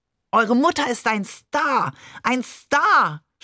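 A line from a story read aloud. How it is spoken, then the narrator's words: Overjoyed shout. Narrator (German): schrie Barbe überglücklich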